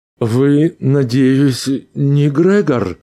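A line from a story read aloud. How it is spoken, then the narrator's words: Timid, shaken question. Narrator (Russian): Робко справился Арнольд, слишком потрясенный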